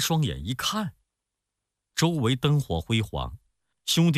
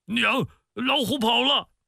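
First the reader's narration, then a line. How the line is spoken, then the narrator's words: Shouting in sleep. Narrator (Chinese): 李逵在睡梦中 嘴里还在嚷着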